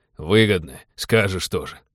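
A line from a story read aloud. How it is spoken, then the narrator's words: Scoffing. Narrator (Russian): хмыкнул Винни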